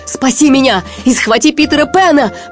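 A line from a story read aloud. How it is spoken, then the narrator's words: Shouted reply. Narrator (Russian): прокричал в ответ Крюк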